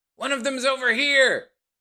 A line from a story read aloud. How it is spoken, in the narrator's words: a whole bunch of people join in, and they're all shouting